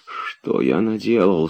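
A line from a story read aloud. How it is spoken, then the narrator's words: Horrified whisper. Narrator (Russian): шептал он с ужасом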